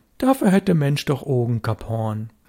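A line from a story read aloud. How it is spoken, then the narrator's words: Calm. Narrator (German): Störtebecker sagte ruhig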